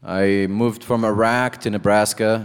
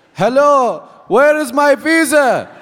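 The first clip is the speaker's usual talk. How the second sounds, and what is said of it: Yelling. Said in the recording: “sir, stop yelling.”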